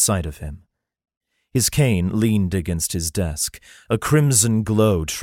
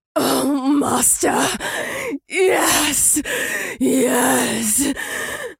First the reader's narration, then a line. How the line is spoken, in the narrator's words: she rasped in a throaty, lusting voice